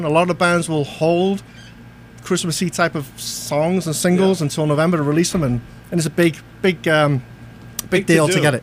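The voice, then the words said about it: British accent. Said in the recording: “As you can tell from my accent, not from around these parts. Originally grew up in the UK.”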